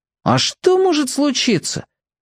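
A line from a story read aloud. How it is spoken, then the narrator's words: Forced carefree exclamation. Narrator (Russian): со старательной беспечностью воскликнул Мир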